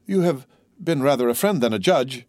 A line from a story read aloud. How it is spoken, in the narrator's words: cried Dante